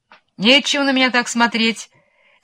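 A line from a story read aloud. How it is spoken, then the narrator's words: Shouted. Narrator (Russian): кричала волкам кума-тыквочка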